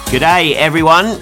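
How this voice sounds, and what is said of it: Bad put-on Australian accent. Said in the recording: “awful Australian accent”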